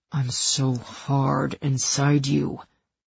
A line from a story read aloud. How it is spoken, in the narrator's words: he growled